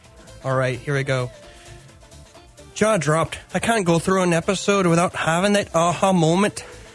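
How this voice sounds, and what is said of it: Put-on Irish accent. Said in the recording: “I want to hear ... read it in an Irish accent.”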